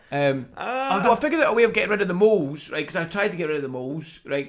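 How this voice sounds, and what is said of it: Thick Scottish accent. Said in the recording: “In your thick Scottish accent.”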